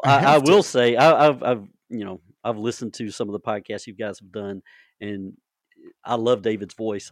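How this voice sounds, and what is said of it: Southern country twang accent. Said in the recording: “I've got that Southern, you know, country boy twang, so I don't sound very good on the radio”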